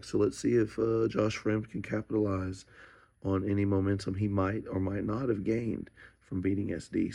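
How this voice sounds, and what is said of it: Hoarse, worn-out voice. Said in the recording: “I lost my voice. ... At the fights, yelling”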